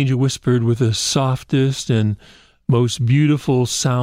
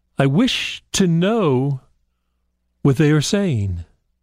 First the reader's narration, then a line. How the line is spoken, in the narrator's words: he called out to the angel